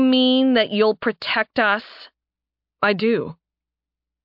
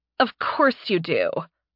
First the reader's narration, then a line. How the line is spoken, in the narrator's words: Mora sighed